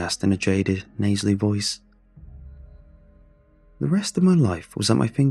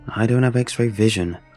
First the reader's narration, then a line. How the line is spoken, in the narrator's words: sighed